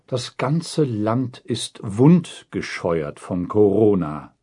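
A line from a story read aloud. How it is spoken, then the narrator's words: Plain. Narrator (German): sagt Jens Spahn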